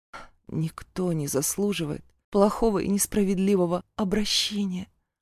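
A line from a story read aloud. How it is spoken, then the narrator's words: Muttered. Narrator (Russian): Пробормотала я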